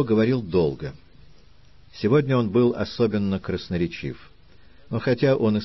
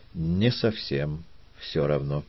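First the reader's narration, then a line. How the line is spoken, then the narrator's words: Calm reply. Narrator (Russian): также спокойно ответил Филиппо Мичио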